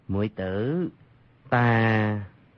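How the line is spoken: Gentle, smiling. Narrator (Vietnamese): Dương Khang dịu dàng cười nói

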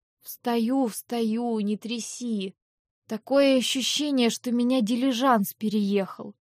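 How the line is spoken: Mumble. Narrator (Russian): Пробормотала я

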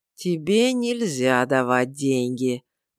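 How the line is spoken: Gloomy drawl. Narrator (Russian): мрачно протянул он

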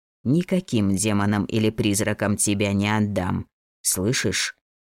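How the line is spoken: Quiet reply. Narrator (Russian): Так же тихо ответил воин

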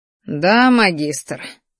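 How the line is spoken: Spiteful, through gritted teeth. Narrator (Russian): злобно процедил сквозь зубы красноволосый

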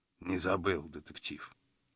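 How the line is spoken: Quiet. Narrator (Russian): тихо вымолвил он

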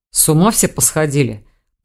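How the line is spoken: Growled. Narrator (Russian): прорычал Рейн

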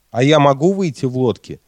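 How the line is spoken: Plain. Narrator (Russian): спросил я

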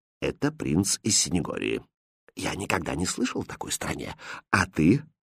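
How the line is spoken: Quiet, confiding. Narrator (Russian): Король же, наклонившись к шуту, тихо сказал

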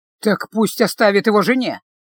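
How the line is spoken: Slightly irritated grumble. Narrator (Russian): чуть раздраженно буркнул маг

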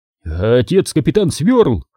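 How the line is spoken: Exclamation ending in choked gurgle. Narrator (Russian): воскликнул мужчина и сдавленно булькнул

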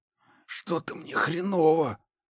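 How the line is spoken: Whisper. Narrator (Russian): прошептал Захар

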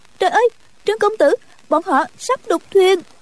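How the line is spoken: Crying out. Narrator (Vietnamese): kêu lên

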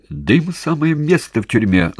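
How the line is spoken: Angry shriek. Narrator (Russian): злобно взвизгнул

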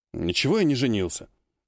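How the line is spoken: Grumbling. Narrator (Russian): буркнул Сергей

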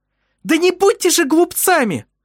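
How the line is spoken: Impatient shriek. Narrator (Russian): взвизгнула нетерпеливая Элизабет

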